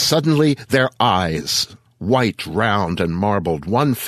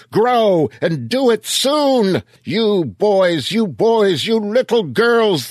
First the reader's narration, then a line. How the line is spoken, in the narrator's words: the other yelled